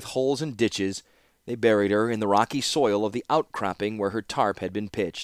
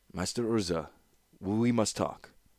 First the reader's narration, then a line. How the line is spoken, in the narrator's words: said Amal softly